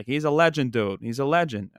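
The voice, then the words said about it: Put-on Boston accent. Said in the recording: “in his Boston accent”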